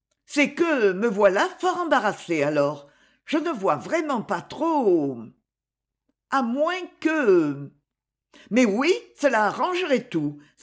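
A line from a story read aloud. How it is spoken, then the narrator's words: Triumphant exclamation. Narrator (French): s'écria-t-elle d'un ton triomphant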